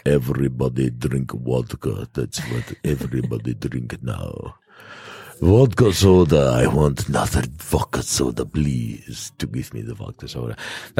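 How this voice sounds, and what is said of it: Put-on Russian accent. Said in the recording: “my terrible Russian accent ... It wasn't that terrible.”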